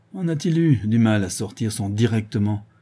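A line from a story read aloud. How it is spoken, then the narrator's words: Grumbling. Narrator (French): grommelait le bonhomme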